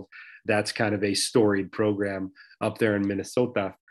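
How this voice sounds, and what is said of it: Put-on Minnesota accent. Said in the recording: “I don't know why I just threw a Minnesota accent in there, but I did.”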